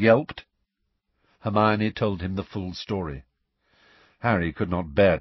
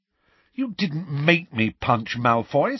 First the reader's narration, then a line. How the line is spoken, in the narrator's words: said Harry angrily